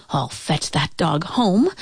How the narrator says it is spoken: she muttered

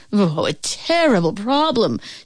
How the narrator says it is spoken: wailed

